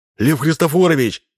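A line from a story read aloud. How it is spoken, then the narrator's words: Shouting. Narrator (Russian): крикнул с порога Грубин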